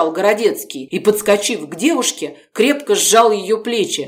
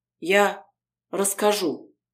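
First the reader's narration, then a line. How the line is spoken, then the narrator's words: Very quiet. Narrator (Russian): тихонько сказала Полина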